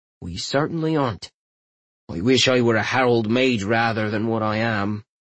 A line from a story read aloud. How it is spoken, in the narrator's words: he sighed